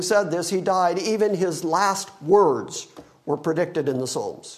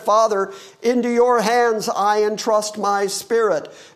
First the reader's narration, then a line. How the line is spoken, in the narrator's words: Jesus on the cross cried out with a loud voice and said